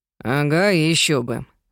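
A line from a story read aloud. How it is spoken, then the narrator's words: Aunt muttering. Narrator (Russian): буркнула тетя Шарлотта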